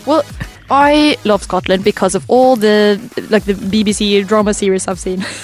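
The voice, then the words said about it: Norwegian accent with Irish-British tinge. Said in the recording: “Your accent is amazing... You are from... Norway... I'm getting a bit of like Ireland in there... That is very Irish... my Norwegian accent mixed up with British”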